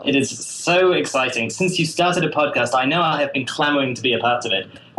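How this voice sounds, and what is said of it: British accent. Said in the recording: “also has a British accent ... It's true that I have a British accent.”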